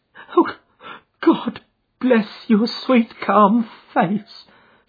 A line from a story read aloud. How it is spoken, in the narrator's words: cried with a hysterical sob